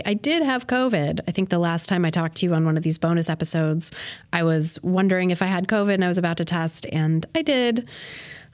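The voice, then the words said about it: Slightly sick-sounding voice. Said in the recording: “you can probably tell from my voice, I am still a little bit sick or getting over it”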